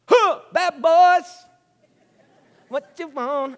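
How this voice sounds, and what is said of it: Fake Jamaican accent. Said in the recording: “I try to do my Jamaican accent. It's really a Jafakin accent.”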